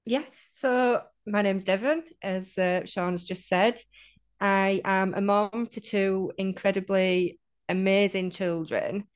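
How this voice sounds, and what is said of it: Northern English accent. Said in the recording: “I love having a northern voice on the podcast... Really, just love the northern accent.”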